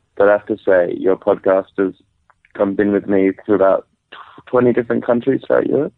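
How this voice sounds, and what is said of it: Australian accent. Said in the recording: “I'm from Australia. ... beautiful little accent”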